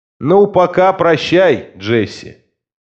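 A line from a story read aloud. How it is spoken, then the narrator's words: Shouted over shoulder. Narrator (Russian): крикнул через плечо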